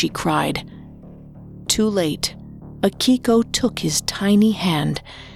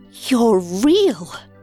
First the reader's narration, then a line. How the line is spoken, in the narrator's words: She exclaimed